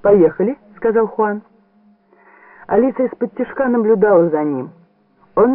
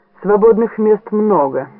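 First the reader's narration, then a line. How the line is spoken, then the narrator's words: Plain. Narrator (Russian): ответила она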